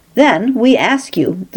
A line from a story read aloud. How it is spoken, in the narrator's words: the Levite pleaded